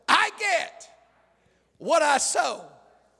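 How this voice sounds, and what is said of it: Preacher-style emphatic delivery. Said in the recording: “Use that preacher voice.”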